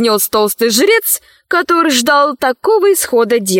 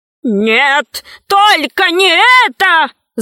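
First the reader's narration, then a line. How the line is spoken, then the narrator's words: Wailing. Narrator (Russian): завопил Вэри Мэри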